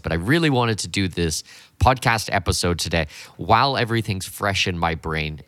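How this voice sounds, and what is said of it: Hoarse, partly lost voice. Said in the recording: “You can probably hear from my voice right now ... I've kind of half lost my voice.”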